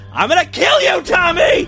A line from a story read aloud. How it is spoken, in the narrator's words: Mom yelled to herself as she realized that Tommy's shoes were gone